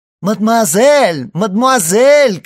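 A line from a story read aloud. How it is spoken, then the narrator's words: Distant shout. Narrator (Russian): кричал чей-то голос из-за деревьев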